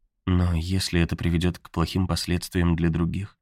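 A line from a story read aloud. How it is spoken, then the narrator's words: Very quiet question. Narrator (Russian): очень тихо спросила Конни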